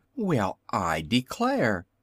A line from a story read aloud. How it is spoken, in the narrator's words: suddenly exclaimed the little Wizard